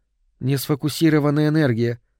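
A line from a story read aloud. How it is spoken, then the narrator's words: Calm explanation. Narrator (Russian): спокойно объяснила Соланж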